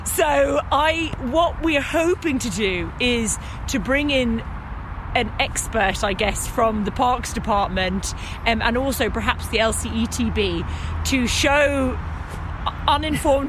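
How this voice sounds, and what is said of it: London accent. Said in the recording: “as you can tell by my accent, I grew up in London City”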